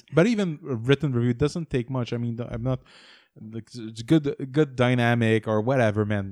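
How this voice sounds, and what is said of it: French accent. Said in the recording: “my French accent is very funny”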